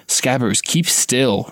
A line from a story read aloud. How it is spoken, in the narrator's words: Ron hissed